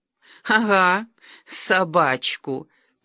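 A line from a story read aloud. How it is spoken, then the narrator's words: Drunken giggling. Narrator (Russian): пьяно хихикала Ольга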